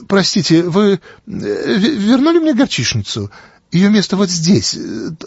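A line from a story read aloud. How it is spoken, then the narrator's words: Thin high voice. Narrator (Russian): тонким голосом произнесла миссис Питер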